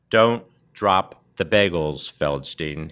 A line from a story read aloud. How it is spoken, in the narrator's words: he warned me, pronouncing each word slowly, separately, to make sure I understood